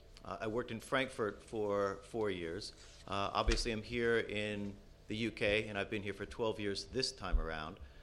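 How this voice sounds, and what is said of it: American accent. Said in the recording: “I'm also the apologist for the United States, given the accent uh, that um, my parents gave me”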